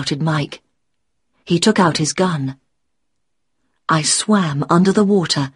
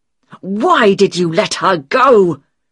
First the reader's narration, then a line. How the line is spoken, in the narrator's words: Mike was shouting